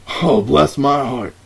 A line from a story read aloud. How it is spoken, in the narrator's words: exclaimed